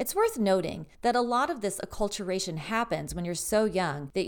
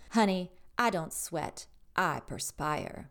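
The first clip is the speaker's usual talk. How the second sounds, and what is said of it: Scarlett O'Hara Southern accent. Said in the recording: “in her beautiful Scarlett O'Hara accent”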